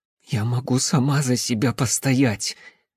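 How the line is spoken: Hoarse wheeze. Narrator (Russian): просипела Липа

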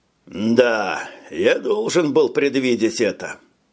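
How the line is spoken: Grumbled under breath. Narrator (Russian): пробурчал себе под нос доктор

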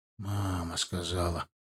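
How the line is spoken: Mumble. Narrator (Russian): пробормотал я

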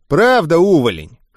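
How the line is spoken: Amused snort. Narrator (Russian): хмыкнул он

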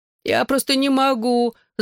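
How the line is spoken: Moaning. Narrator (Russian): застонала Клэр

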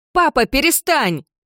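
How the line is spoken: Shouted. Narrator (Russian): закричала Кендалл

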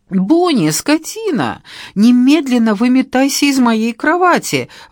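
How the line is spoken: Fearful exclamation. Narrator (Russian): воскликнула, боязливо

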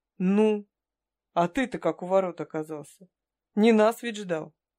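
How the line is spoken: Scoffing. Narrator (Russian): Халк хмыкнул

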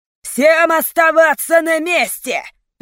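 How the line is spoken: Roaring. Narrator (Russian): взревел главный

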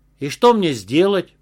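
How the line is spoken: Snapping retort. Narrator (Russian): огрызнулась Лариса

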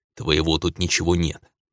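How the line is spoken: Angry snarl. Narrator (Russian): я зло оскалился

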